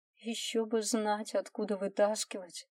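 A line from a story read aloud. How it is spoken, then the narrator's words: Sighing. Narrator (Russian): вздохнула Лиза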